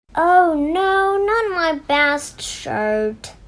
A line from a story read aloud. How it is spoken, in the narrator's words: groaned Dad